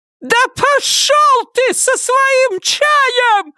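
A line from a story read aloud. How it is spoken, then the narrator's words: Highest-pitched shriek. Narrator (Russian): Завизжала на самой высокой ноте, на какую только была способна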